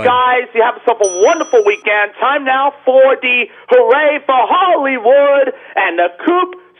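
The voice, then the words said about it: Radio announcer broadcasting voice. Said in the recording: “do your official broadcasting voice ... it's the announcing voice”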